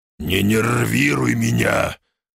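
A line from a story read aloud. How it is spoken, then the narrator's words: Growling. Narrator (Russian): рыкнул я на друга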